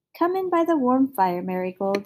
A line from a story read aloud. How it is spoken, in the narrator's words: said the lady kindly